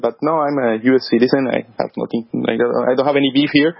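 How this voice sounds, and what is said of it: Heavy foreign accent. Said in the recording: “my heavy accent”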